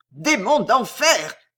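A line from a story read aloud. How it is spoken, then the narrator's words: Roar. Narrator (French): rugit Rospignac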